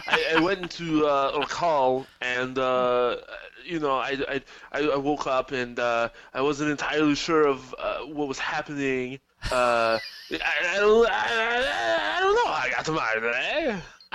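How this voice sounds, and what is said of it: Arnold Schwarzenegger impression. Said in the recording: “my Schwarzenegger impression”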